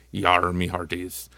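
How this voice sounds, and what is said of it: Pirate voice. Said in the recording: “Talk Like a Pirate”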